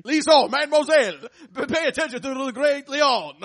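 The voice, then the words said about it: Fake French accent. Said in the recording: “our version of French ... fake French accents”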